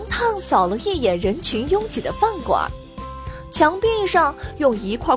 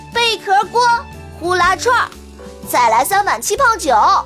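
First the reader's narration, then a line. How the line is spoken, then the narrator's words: Calling out. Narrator (Chinese): 向老板喊道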